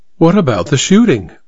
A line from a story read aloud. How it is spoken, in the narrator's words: Minerva asked